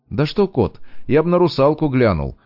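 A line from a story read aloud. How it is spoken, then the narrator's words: Chuckled. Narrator (Russian): хохотнул Качанов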